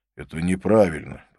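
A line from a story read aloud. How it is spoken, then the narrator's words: Grumbling. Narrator (Russian): проворчал он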